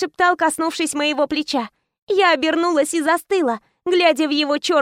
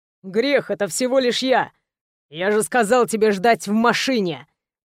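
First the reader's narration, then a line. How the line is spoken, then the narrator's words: Angry growl. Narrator (Russian): Прорычал со злостью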